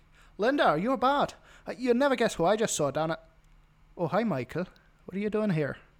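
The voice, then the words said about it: Put-on Dublin Irish accent. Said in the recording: “my impression of a Dubliner, someone in Dublin”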